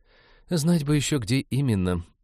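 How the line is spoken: Despairing sigh. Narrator (Russian): вздохнула Иветта, отчаявшись прочесть письмо

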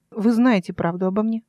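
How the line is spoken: Snorting. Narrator (Russian): Ставинский хмыкнул

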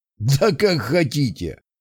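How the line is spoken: Man laughing. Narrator (Russian): засмеялся мужчина

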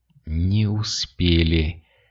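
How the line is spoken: Whispered. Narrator (Russian): прошептал Кирилл

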